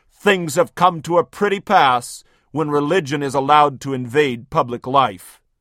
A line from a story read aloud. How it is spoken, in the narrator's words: Lord Melbourne of Britain was upset at a movement led by evangelical Christians, and he thundered